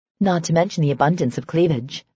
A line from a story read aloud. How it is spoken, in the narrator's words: Serena said dryly